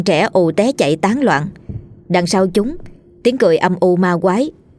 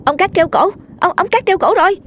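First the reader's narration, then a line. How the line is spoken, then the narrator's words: Child suddenly shouting. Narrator (Vietnamese): Một đứa bỗng hét lên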